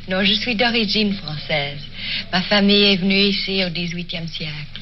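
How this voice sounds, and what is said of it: French with a slight foreign accent. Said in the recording (French): “Elle parle français en plus. Avec un petit accent, so sweet.”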